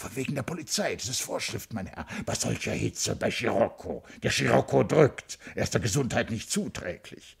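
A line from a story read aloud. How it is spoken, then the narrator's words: Hoarse answer. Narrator (German): Der Spaßmacher antwortete heiser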